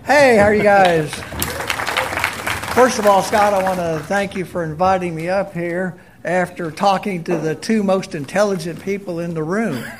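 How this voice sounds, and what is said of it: Texas accent from Abilene. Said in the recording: “You're from Abilene, right? ... You can tell by your accent.”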